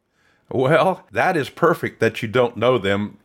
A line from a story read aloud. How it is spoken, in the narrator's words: chuckled